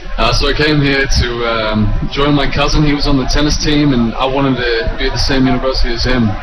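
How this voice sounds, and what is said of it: Australian accent. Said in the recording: “a little bit of an accent from you coming from Australia”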